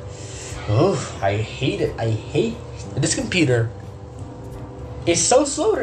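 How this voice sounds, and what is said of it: Usual voice. Nothing is said of it.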